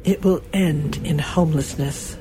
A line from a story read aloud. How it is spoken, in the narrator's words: she said quietly